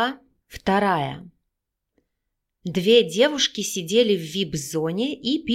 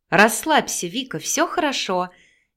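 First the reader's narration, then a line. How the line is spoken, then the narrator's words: Cheerful. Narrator (Russian): весело предложила Наташа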